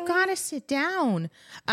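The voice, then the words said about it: Scolding pet-mom voice. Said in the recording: “Little dog mom voice coming out, telling my boy to sit.”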